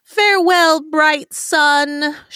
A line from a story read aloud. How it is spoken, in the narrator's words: she cried